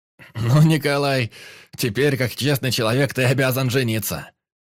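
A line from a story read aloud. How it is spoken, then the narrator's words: Laughing announcement. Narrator (Russian): Сквозь смех объявил Некрасов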